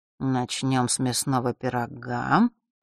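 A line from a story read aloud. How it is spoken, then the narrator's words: Mutter. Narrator (Russian): пробормотал он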